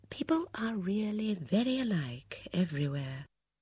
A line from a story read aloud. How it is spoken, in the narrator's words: She murmured under her breath